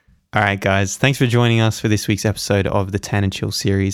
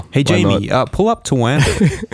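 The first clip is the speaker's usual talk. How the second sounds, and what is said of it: Put-on American accent. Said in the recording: “Is that your American accent?”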